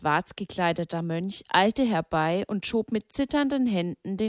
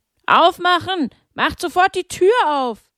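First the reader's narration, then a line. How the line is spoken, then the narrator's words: Men bellowing. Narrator (German): als mehrere Männer brüllten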